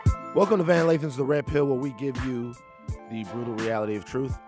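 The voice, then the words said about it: Slightly raspy voice. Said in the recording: “My voice sounds a little, a little raspy right there. Got a little Tina Turner.”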